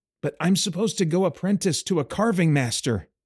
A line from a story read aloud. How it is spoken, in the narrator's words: he exclaimed